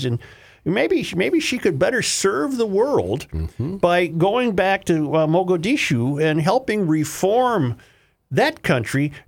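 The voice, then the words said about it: Imitates another person's voice. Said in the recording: “By far the worst Donald Trump impersonation I've ever heard in my life.”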